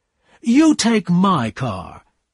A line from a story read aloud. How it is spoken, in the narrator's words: Tom said in a loud voice